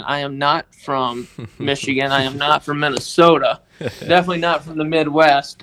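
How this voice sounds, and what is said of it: Mississippi accent. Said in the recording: “if you guys can't tell from my accent, ... I was born and raised in Tishomingo, Mississippi”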